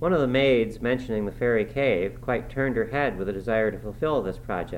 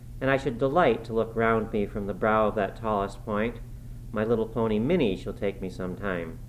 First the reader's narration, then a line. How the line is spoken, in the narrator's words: murmured to herself